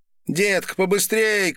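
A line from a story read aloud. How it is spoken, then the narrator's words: Shout from a queue. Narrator (Russian): крикнули из очереди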